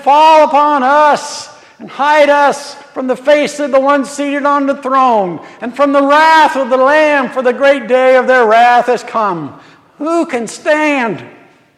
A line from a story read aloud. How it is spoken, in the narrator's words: they called out to the rocks, saying